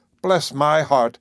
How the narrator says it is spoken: exclaimed the new arrival

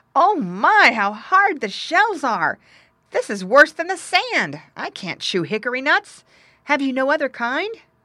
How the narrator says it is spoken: as soon as he took them in his mouth, he cried out

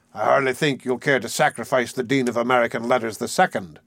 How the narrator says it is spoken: he sneered

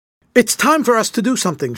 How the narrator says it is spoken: shouted John, who was almost beside himself in his excitement

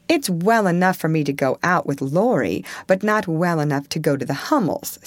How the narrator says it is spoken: said Joe, laughing, but looking a little ashamed of her inconsistency

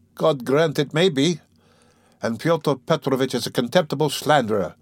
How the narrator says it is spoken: Dunya snapped out suddenly

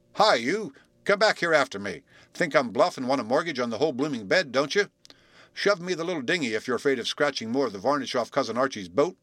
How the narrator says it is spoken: he shouted

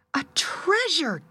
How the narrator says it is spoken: gasped the woman, as soon as she could speak from surprise

